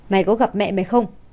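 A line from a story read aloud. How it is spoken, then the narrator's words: Very cold voice. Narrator (Vietnamese): Giọng của Hạ Lập Nguyên rất lạnh lùng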